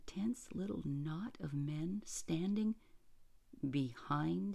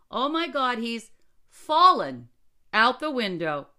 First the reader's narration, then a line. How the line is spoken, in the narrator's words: cried a quick-witted editor